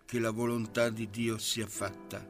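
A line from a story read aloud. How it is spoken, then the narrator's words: Old man murmuring. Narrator (Italian): il vegliardo mormorò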